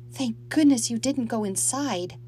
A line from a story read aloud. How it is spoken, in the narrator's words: she murmured